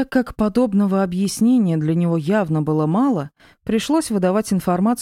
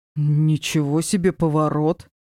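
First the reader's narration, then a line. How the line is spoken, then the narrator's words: Surprised man's grunt. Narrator (Russian): С искренним удивлением хмыкнул рыжеволосый мужчина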